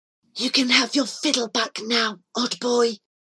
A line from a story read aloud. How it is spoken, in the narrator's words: he whispered through his battered fingers